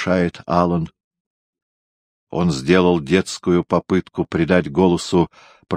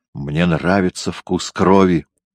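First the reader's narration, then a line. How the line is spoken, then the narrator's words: Breathless. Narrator (Russian): Мэри выдохнула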